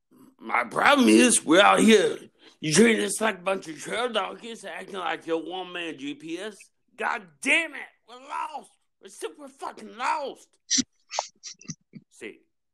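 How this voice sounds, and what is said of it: Imitates another person's voice. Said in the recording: “first impersonation here on Morning Woodruff ... who that was Steve Harvey”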